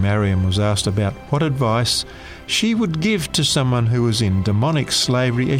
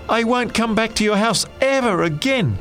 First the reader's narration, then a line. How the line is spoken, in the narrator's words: finally shouted